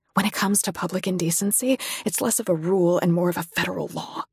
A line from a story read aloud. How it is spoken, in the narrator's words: I whisper